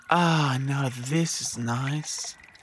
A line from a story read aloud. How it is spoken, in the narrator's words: sighed the Yowie